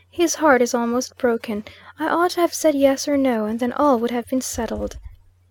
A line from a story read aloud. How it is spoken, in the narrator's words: sighed